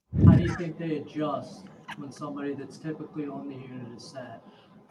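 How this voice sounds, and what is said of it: Very soft-spoken, quiet voice. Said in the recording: “he was talking in a very, very soft-spoken tone of voice. So it was hard. It's like, can you turn up the volume a little bit, please?”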